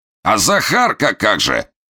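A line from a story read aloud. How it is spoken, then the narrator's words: Shouting from behind door. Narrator (Russian): крикнул Бурылин уже из-за двери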